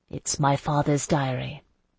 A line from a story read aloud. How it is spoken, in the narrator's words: Isandra said quietly